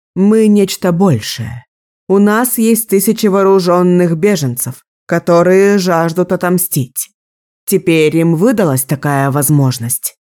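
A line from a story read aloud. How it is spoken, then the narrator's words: Plain. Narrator (Russian): сказала Никки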